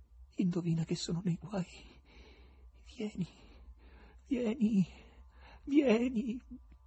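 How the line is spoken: Whisper. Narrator (Italian): sussurrai

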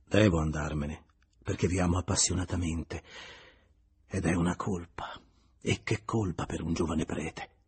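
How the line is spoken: Sighing. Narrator (Italian): Julien rispose sospirando

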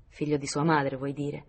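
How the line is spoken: Sighing. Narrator (Italian): sospirò donna Ruth

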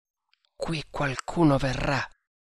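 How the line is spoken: Snake hunter, low voice. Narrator (Italian): disse il cacciatore di serpenti, sottovoce

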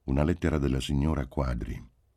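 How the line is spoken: Plain. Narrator (Italian): disse

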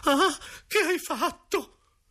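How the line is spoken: Exclaimed. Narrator (Italian): La zia Bettina ha esclamato

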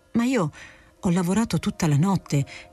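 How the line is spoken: Stammered. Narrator (Italian): balbettò Monteiro Rossi

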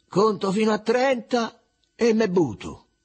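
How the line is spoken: Shout. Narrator (Italian): Genesio allora gridò

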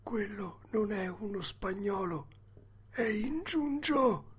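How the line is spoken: Whispered in ear. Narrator (Italian): gli bisbigliò nell'orecchio

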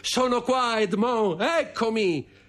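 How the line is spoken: Shouted. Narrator (Italian): gridando

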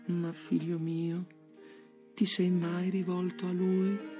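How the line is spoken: Honeyed, hypocritical voice. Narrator (Italian): mi domandai con voce melliflua e ipocrita

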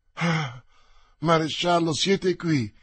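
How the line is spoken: Joyful exclamation. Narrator (Italian): esclamò Anna d'Austria con gioia

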